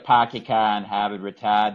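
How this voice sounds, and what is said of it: Working-class Boston accent. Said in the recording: “I can do a real Boston. I can do, my dad sounds more like a working class Boston accent”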